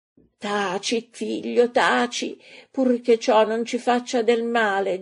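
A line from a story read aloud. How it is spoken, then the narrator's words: Mother moaning. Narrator (Italian): geme la madre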